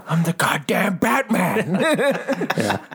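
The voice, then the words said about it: Impression of a friend's Batman line. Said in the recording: “did my best your impression”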